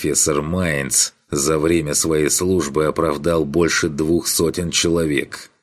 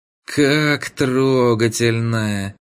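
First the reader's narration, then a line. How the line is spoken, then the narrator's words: Through clenched teeth. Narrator (Russian): Курт сквозь зубы выцедил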